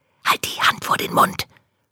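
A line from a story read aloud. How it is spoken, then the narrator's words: Whispered reply. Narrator (German): flüstert Maja zurück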